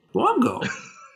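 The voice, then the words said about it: Dinosaur voice impression. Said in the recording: “my brief dinosaur impression”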